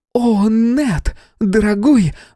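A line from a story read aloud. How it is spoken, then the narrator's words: Sudden shriek. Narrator (Russian): внезапно взвизгнула Хэти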